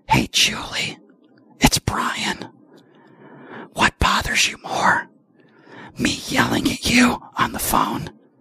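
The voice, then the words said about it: Slow whispered speech. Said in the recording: “I'm going to speak very slowly and I'm going to whisper in the microphone.”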